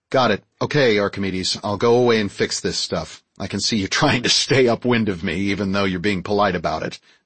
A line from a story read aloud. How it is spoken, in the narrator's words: I chuckled